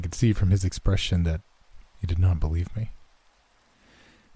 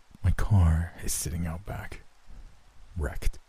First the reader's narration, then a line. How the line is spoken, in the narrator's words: John stared at me grimly and then answered